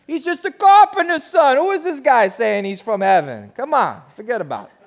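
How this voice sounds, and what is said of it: Put-on New Jersey accent. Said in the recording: “This is my Jersey accent.”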